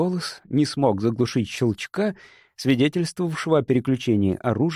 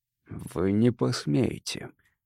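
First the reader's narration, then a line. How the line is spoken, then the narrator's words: Hoarse rasp. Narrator (Russian): прохрипел я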